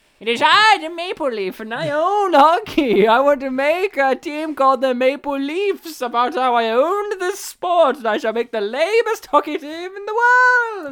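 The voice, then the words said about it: Old white man character voice. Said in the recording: “That was a Leaf accent. ... That was old white man, I think.”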